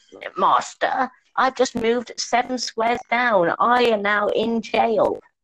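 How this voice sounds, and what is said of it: Posh British character voice. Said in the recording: “posh British man with a monocle. Basically the Monopoly man going”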